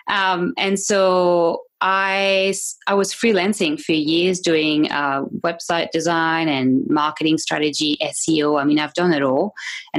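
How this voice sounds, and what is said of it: French accent. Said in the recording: “I have a French accent because I am French.”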